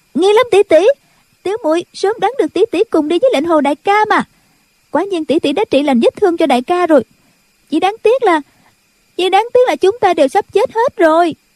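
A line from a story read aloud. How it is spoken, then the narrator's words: Girl speaking loudly. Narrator (Vietnamese): cô bé liền lớn tiếng nói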